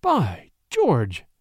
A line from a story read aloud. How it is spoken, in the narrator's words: he exclaimed